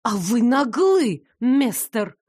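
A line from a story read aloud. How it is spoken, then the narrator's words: Hiss. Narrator (Russian): прошипела я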